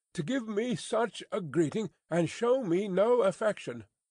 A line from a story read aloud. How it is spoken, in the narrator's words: cried Miss Pross